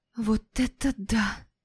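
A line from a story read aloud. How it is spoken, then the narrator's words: Whispered. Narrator (Russian): прошептала я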